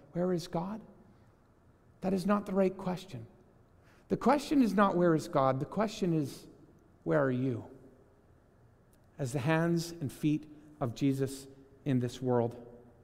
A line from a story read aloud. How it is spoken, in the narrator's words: gently, calmly, and with love looked back at this person and said